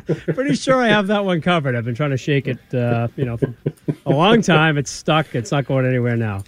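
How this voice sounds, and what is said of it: Boston accent. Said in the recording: “if you ever need someone with a Boston accent, let me know. I'm like, I think I got that one covered.”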